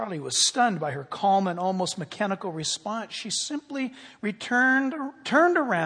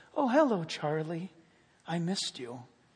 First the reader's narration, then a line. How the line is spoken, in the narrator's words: softly said